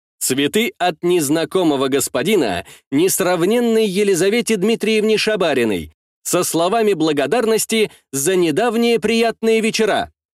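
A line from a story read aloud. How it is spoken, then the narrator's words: Deliberately loud, almost shouting. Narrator (Russian): Нарочито громко, можно сказать даже, что крича, говорил человек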